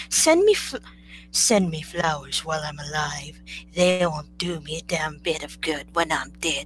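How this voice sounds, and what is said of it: Imitates another person's voice. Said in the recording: “my best Joan Crawford impersonation”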